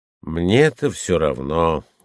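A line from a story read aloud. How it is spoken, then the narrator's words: Tired voice. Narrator (Russian): утомленным голосом ответил другой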